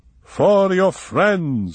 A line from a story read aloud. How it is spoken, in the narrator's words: she said, triumphantly